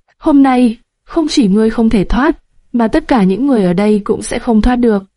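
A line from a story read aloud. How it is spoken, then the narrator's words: Loud mocking laughter. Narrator (Vietnamese): Mặc Họa cười lớn, như thể đang nghe một câu chuyện cười lớn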